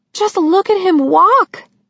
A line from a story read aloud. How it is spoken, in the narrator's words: Sissy cried